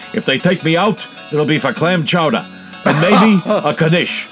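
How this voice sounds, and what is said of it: Bernie Sanders impression. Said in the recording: “my favorite Bernie impression.”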